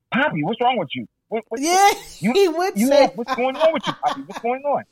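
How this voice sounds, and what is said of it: Heavy Hispanic accent impression. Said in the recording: “Hispanic, very heavy accent.”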